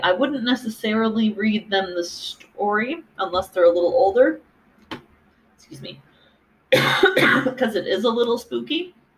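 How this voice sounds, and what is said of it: Worn-out, tired voice. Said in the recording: “I'm recording the fourth podcast in a row, so my voice is telling me it's done”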